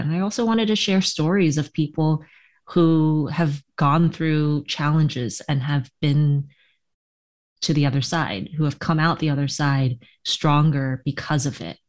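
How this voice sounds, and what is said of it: Soothing, beautiful voice. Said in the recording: “my voice is very soothing ... You do have a very soothing, beautiful voice.”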